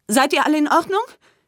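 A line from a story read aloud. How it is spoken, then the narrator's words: Calling out. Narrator (German): rief er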